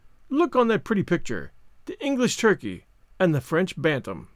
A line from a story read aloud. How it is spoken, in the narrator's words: said Marguerite, with one of her merry, infectious laughs